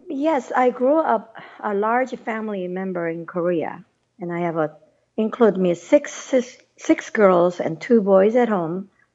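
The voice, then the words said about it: Non-native English accent. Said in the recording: “you're not a native born American by your accent”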